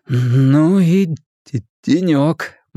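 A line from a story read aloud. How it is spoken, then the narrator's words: Gloomy pronouncement. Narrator (Russian): мрачно изрек Билл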